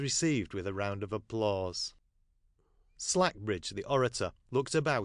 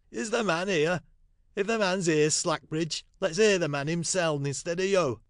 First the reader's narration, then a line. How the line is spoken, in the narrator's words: one strong voice called out